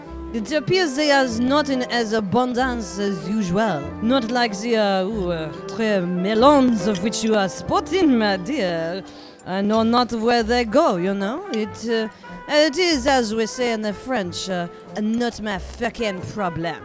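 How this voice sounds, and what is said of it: Put-on French accent. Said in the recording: “his accent?”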